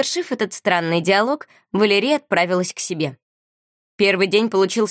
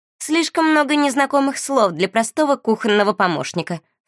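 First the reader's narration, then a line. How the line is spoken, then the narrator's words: Scornful snort. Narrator (Russian): фыркнула Жади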